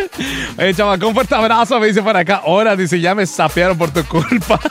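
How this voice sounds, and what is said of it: Yucatecan Spanish accent. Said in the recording (Spanish): “Me encanta tu acento yuca y tu risa ... Yo creía que no tenía acento yuca hasta que descubrí que sí soy bien yuca”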